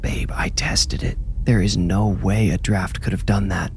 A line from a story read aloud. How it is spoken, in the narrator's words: whispered Percy